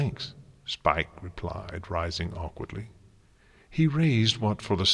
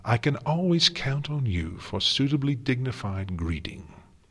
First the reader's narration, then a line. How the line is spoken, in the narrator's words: Celestia said warmly